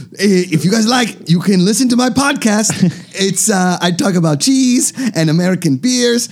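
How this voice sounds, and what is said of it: Bad put-on German accent. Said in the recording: “going to a German accent ... bad German”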